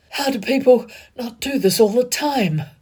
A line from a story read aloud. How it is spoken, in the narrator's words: He gasped, thoughtless in between kisses